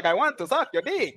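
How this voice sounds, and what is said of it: Put-on accent. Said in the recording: “what was that accent, bro?”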